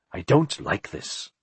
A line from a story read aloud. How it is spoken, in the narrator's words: Philip said in a troubled voice